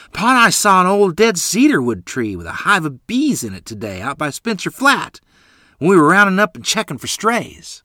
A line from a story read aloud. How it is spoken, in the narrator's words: yelling to Ma